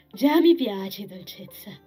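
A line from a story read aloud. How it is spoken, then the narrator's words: Plain. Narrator (Italian): disse poi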